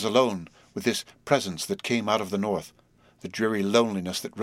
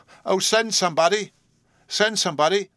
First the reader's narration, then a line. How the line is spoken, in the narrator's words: she cried aloud